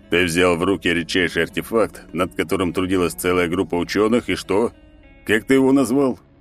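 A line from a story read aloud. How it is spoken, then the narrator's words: Booming drone. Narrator (Russian): прогудел Черномор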